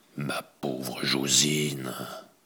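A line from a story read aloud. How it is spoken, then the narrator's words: Low voice. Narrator (French): Il dit à voix basse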